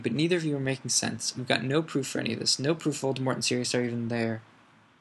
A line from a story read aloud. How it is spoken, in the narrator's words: cried Hermione